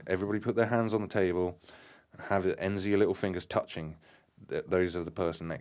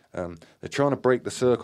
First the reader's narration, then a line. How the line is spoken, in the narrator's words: Graham yelled